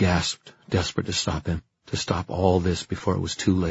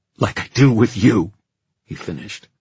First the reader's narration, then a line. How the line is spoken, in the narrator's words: the words spat out almost savagely